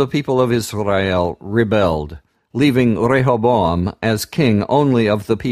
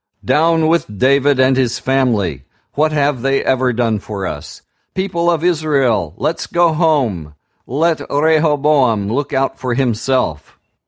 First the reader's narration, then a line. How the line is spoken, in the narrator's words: When the people saw that the king would not listen to them, they shouted